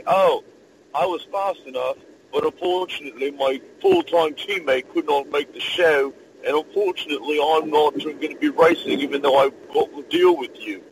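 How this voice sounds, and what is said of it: Poor put-on British accent. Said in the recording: “my very, very appalling British accent”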